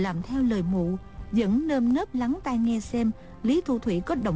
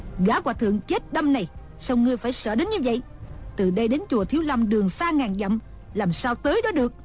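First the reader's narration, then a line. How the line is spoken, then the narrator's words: Angry. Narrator (Vietnamese): Đồng Mổ tức giận nói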